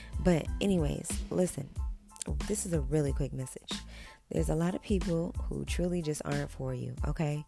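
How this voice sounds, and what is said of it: Slightly raspy voice. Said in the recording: “my voice is sounding, it's sounding a little bit raspy a little bit ... I feel like I got something in my throat”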